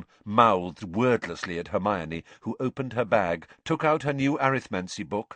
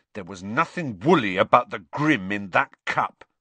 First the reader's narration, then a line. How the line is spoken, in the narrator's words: said Ron hotly